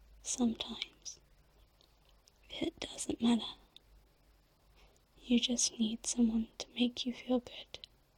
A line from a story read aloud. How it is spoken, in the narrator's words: she whispered